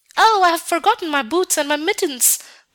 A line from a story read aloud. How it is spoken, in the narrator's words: cried little Gerda, as soon as she felt the cutting cold